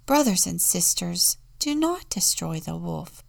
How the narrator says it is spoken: pleaded St

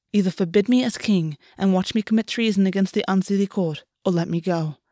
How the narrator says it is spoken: August said quietly

